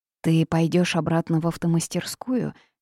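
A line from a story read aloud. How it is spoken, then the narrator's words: Sad. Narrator (Russian): грустно спросила она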